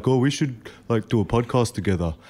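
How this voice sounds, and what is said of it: Dopey imitation of another person's voice. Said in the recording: “That's a really bad impersonation of you ... Why did my voice go there? ... Why was I dopey?”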